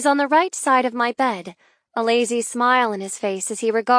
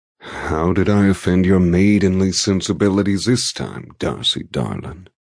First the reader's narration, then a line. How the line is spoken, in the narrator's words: He drawls in amusement